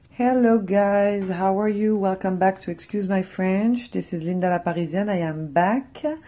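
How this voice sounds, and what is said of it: Strained, robotic-sounding recovering voice. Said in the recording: “I have lost my voice for 3 days last week, so that's the reason why I'm speaking like a robot right now... that travesty voice that I for sure have”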